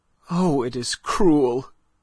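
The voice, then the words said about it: Stifled, choked-back voice. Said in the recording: “in a stifled voice”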